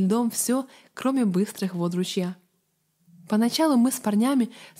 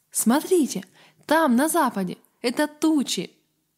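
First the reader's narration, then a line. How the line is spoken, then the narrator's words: Exclamation. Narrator (Russian): Авари Гаррет воскликнул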